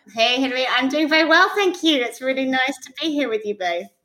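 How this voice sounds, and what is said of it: British accent. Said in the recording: “from that accent, I think across the pond means United Kingdom”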